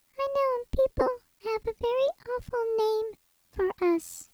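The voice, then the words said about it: High-pitched character voice. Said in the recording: “you deserve a high voice”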